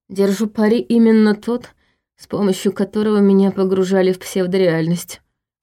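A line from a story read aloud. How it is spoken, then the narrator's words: Gloomy guess. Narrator (Russian): мрачно предположил Войтах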